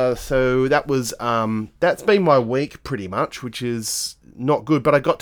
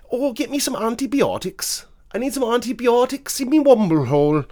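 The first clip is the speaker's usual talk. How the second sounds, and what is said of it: Put-on Welsh accent. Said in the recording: “that sounded very Welsh.”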